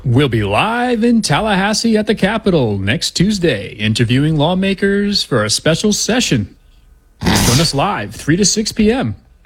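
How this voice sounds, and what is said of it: Announcer voice. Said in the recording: “Your announcer voice? That's actually pretty good.”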